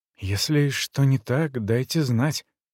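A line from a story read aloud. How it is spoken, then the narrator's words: Whisper. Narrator (Russian): прошептал он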